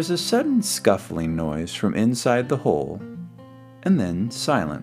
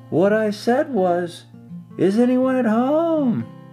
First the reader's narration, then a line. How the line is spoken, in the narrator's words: called out Pooh very loudly